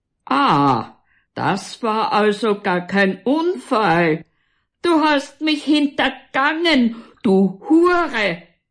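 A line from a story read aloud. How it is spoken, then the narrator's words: Furious roaring. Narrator (German): brüllt er weiter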